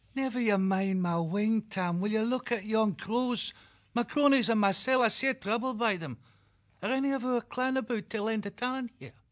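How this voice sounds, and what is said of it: Quaint Northland accent. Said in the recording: “conversing in their quaint Northland accent”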